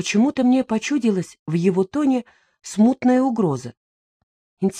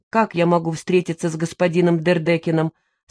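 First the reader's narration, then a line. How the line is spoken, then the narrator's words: Cold question. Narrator (Russian): спросила я холодно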